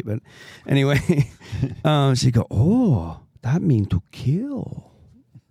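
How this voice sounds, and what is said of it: Put-on Asian accent. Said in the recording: “I'm just going to be this so racist, like Asian accent. It's going to be great.”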